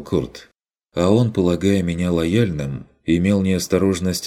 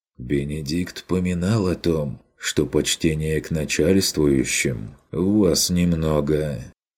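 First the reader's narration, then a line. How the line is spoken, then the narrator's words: Remarked. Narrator (Russian): отметил отец Альберт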